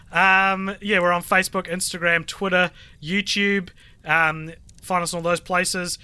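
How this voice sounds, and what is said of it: Very hoarse voice. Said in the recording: “My voice is very, very hoarse, very goat.”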